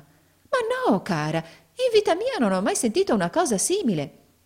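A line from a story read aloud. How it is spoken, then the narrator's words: Exclaiming woman. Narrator (Italian): esclamò la signora Nickleby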